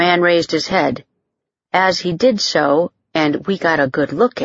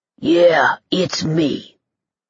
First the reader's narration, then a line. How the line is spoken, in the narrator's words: Boogie Fleischman growled in a voice that was far deeper and resonant than expected from such a small human